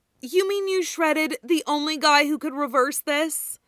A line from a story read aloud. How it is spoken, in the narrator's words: Nami groaned, loudly enough to be heard over the sounds of Sanji thumping his head against the main mast